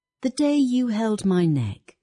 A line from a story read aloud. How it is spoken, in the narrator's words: she said at last, her voice even and clear as a bell